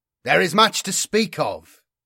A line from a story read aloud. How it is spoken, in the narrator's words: I said, my voice carrying up the tiered seats